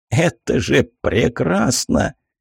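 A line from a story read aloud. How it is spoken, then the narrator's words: Growled. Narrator (Russian): Я зарычал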